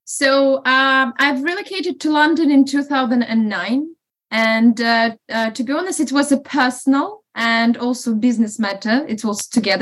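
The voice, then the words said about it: Non-UK foreign accent. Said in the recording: “you're not a native of the UK, as we can hear from your accent.”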